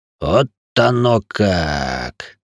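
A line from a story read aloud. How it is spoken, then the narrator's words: Meaningful drawl. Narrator (Russian): многозначительно протянулся Заус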